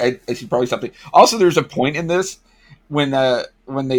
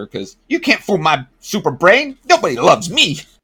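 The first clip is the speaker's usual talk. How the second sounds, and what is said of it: Mother Brain character voice. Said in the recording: “doing the voice”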